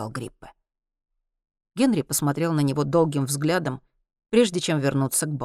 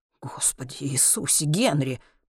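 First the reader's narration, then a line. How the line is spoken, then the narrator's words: Muttered. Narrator (Russian): пробормотал Гриппе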